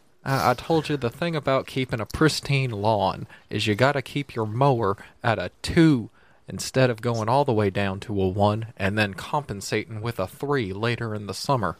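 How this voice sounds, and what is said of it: Texan cartoon character voice, Hank Hill. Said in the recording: “do a Hank Hill impression ... I just want to hear you do an accent”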